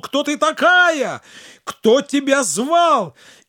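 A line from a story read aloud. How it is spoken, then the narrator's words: Shout. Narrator (Russian): Абуль-Хасан крикнул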